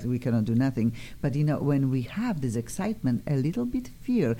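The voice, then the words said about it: Non-native English accent. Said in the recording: “with my language skills, with my accent”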